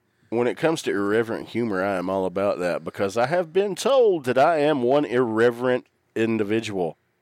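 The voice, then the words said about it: Southern US accent. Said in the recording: “your southern accent ... my dialect and accent”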